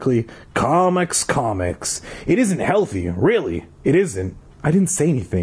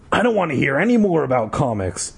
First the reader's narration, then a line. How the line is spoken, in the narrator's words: Dad said gruffly